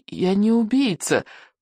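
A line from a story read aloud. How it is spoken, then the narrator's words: Trembling mumble. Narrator (Russian): промямлил Икинг дрожащим голосом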